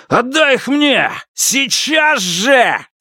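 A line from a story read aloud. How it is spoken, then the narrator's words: Yelling at top of lungs. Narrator (Russian): заорал Льян Сихай во все горло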